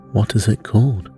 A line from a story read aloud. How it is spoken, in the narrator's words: asked the king